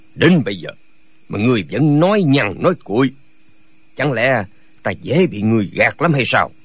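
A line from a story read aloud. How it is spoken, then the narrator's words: Harsh, seething voice. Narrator (Vietnamese): vẻ mặt Nhạc Bất Quần tái xanh, gằn giọng nói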